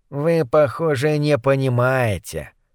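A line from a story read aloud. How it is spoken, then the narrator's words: Sigh. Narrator (Russian): вздохнул Моррис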